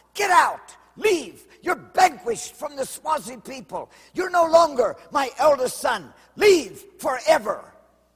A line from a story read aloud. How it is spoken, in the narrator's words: he shouted